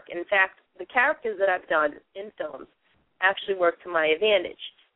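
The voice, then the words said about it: Boston accent. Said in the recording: “as you can hear me speak, I really do have the Boston accent because I'm from there”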